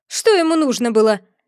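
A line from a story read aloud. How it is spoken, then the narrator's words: Sharp queen's question. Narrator (Russian): резко спросила черная королева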